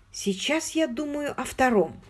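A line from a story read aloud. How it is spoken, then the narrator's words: Plain. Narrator (Russian): сказала Хиллари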